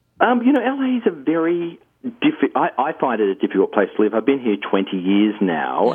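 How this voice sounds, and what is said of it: Australian accent. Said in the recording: “Do you miss Australia ... as you can tell from the accent, I still haven't exactly completely enculturated just yet”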